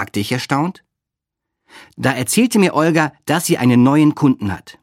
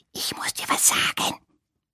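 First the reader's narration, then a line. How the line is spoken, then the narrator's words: Whispering. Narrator (German): flüsterte sie, obwohl weit und breit kein Mensch zu sehen war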